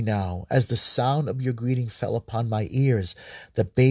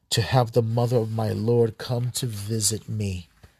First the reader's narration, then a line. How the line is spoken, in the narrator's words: Elizabeth said gravely